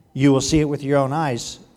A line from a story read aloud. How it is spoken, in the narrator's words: answered Elisha